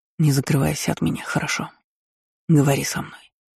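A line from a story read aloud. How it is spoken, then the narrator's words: Asking. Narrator (Russian): попросил Скай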